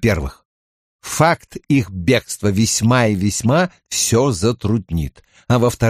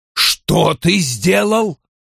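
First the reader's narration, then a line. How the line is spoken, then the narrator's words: Roar. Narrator (Russian): взревел Вульф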